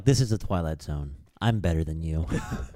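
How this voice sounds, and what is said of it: Patronizing imitation of another person's voice. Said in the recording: “He sounds like a very uh, patronizing Rod Serling”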